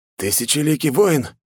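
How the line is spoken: Astonished breathless exclamation. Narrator (Russian): выдохнул парень, а его глаза расширились от удивления

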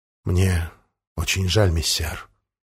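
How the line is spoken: Very quiet. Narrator (Russian): верный Валентин очень тихо говорит

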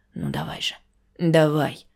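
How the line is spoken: Quiet pleading whisper. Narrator (Russian): тихим шепотом, умоляя

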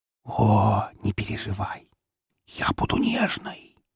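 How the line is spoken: Mock-tragic whisper over laughter. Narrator (Russian): трагическим шепотом пообещала мне Фокси под новый взрыв смеха

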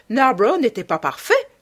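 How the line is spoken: Old lady exclaiming. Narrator (French): s'écria la vieille dame

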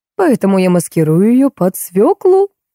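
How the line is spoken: Joyful squeak. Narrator (Russian): радостно пищал Иван

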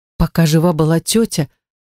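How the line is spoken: Trembling voice. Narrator (Russian): начала дрожащим голосом

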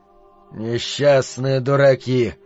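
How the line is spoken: Muttered. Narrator (Russian): пробормотал Ричард

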